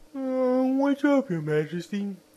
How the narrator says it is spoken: asked with a wide yawn, for he had just wakened

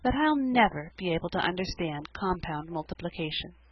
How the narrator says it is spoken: concluded poor Sarah in a hopeless tone

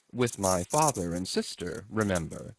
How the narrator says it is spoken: said Prince Andrew gently

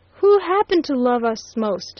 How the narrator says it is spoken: he repeated wildly

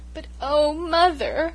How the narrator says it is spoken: I sobbed

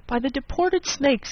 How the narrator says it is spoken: he exclaimed

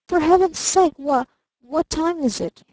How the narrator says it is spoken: he faltered

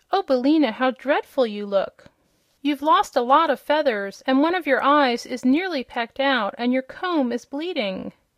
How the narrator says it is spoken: The girl exclaimed

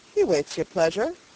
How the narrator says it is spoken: said the trooper dryly

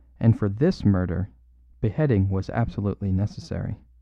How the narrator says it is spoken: said Brown calmly

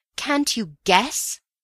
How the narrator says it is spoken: I cried

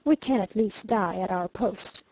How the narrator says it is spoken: calmly said

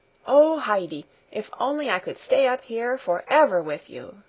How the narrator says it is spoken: she exclaimed happily

